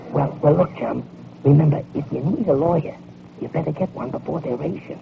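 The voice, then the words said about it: Hoarse whispered voice. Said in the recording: “Why are we whispering? ... I got bronchitis ... Laryngitis.”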